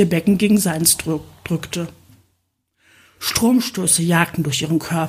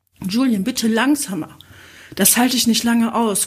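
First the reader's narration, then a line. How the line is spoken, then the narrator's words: Panting. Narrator (German): keuchte sie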